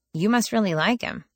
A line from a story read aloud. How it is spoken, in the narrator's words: I observed dryly